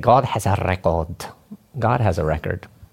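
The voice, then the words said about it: Put-on English accent. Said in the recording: “Was that a good English accent ... Yeah, it was pretty good for you.”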